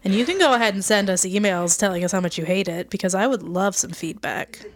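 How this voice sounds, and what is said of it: Californian accent. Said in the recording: “I have a very annoying Californian accent.”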